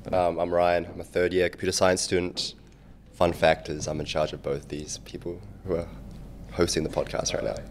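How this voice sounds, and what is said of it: New Zealand accent. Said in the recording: “your weird accent? ... Of my weird accent? I'm from New Zealand.”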